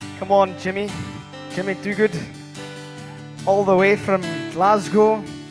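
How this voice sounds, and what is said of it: Put-on Scottish accent. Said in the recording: “I'm talking in a Scottish accent”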